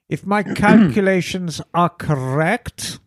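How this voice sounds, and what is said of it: Put-on German accent. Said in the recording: “you need to use a German accent when you actually say that.”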